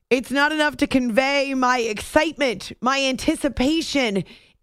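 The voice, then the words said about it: Yelling loudly. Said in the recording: “in fact, yes, I am yelling. ... You all are yelling at me to stop yelling right now”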